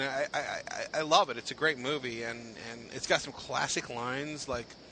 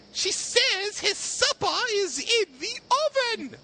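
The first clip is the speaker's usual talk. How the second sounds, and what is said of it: Poor imitation of a movie character. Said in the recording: “terrible impersonation”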